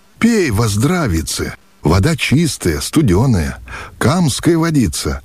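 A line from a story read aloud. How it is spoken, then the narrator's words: Joyful reply. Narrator (Russian): радостно отозвался мещеряк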